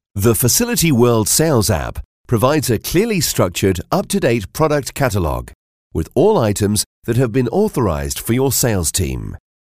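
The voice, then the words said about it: Neutral British male accent. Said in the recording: “I'm a British male voiceover with a neutral accent, which means you can play me anywhere in the world and people understand me”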